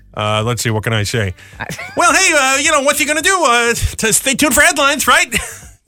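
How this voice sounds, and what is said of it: High-pitched voice with a lisp. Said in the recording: “my impression ... contort into Jay Leno ... It's my Jay Leno ... Got to do a little lisp and a high-pitched voice.”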